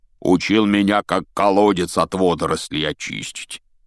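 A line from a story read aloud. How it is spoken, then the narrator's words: Grumbling. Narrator (Russian): проворчал Хагрид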